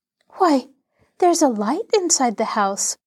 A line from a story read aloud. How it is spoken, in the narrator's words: Laura exclaimed